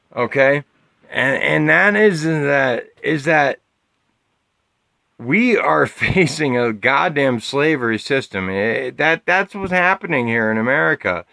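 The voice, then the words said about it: Drunk, slurred speech. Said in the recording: “I'm really hammered at like seven shots in ... I'm slurring my words right now”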